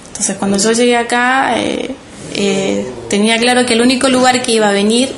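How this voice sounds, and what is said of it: Soft Chilean accent. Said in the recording (Spanish): “con ese suave acento chileno”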